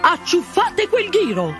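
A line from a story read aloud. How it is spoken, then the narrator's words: Queen shrieking. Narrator (Italian): strillò la regina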